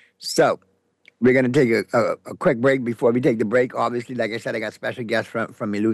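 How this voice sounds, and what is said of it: Usual voice. Nothing is said of it.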